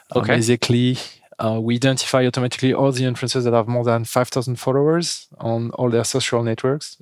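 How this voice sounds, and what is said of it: French accent in English. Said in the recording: “As you can hear with my accent, we are French”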